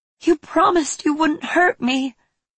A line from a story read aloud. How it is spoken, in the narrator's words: Toffle said, her voice shaking as her body trembled